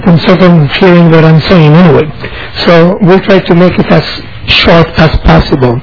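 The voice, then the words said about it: Speaks with a noticeable accent. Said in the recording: “difficult thing of first understanding my accent”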